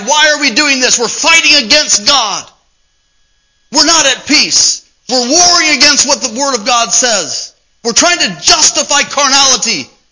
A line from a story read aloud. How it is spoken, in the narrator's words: we're screaming inside